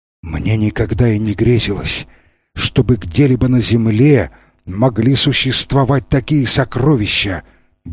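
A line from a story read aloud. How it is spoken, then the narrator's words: Entranced muttering. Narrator (Russian): бормотал он, опьяненный этим зрелищем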